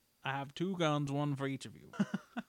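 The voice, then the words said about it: Deep drawling Western character voice. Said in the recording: “my Doc Holliday impression here is pretty much Morgan Freeman at the same time ... It's just a little deeper.”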